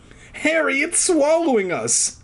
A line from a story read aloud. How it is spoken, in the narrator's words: Alex wailed